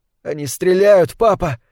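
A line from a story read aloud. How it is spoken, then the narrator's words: Hoarse tense unfamiliar voice. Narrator (Russian): сказал Уэйн хриплым напряженным голосом, который сам с трудом узнал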